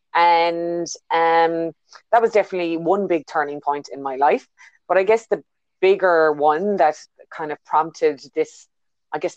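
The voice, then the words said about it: Irish accent. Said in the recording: “you can hear by my accent, I'm not originally a New Zealander. I was born in Ireland”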